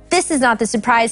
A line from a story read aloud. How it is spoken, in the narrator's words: Harold said